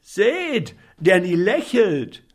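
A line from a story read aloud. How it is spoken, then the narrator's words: Shouted. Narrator (German): schrie einer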